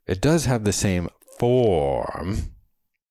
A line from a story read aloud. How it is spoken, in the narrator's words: accentuated and protracted the last word dramatically